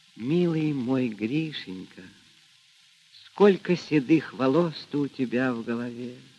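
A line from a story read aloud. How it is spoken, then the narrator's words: Whispered. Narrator (Russian): Сказала она шепотом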